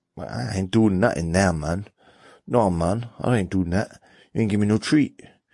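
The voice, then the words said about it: Put-on mixed accent. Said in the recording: “I don't know what accent that was. That was a mixture of...”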